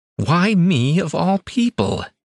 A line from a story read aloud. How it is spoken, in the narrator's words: Celia whined